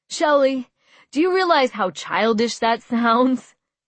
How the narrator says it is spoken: He laughed

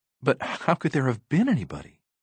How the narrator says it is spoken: Susan stammered

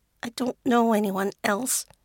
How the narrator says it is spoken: she mutters

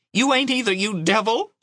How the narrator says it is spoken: she screamed, bursting into tears

